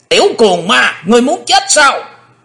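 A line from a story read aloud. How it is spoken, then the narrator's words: Sudden shout. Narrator (Vietnamese): lão quái ngư bất chợt đã quát lên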